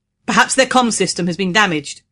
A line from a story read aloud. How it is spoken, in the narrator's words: he said in a loud voice to make himself heard over the wind